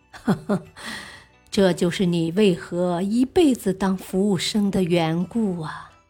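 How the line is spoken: Laughing. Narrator (Chinese): 洛克菲勒笑着说

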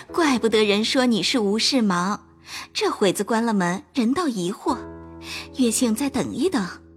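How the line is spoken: Laughing. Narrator (Chinese): 袭人笑道

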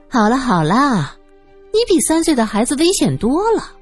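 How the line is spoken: Soft laugh. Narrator (Chinese): 苏三…忍不住轻笑道

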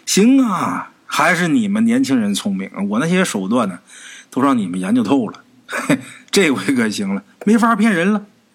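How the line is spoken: Laughing. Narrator (Chinese): 二叔开始笑……说

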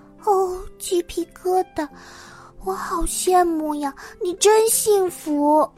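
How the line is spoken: Sighing. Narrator (Chinese): 弗利茨叹了口气

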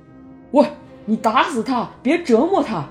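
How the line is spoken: Angry shout. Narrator (Chinese): 屠夫愤怒地喊道

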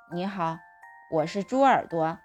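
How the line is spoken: Polite, with a sigh. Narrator (Chinese): 我叹口气，有礼貌地说

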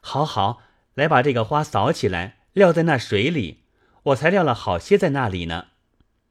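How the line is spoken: Laughing. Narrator (Chinese): 宝玉笑道

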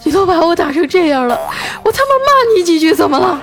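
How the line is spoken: Boy, tearful voice. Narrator (Chinese): 那男孩啊带着哭腔说

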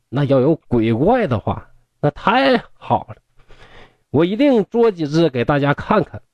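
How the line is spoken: Hearty laughter. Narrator (Chinese): 殷公大笑说

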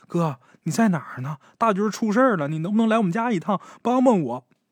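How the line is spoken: Urgent, tearful, breathless woman. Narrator (Chinese): 这女的……口气很急呀，带着哭腔，气喘吁吁的说

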